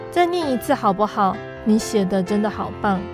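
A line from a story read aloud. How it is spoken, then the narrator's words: Soft voice. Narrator (Chinese): 大弟弟轻声地说道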